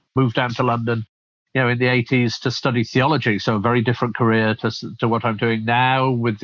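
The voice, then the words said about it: Northern English accent. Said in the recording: “as you can probably tell from my accent, I'm from the UK, originally brought up in the north of England”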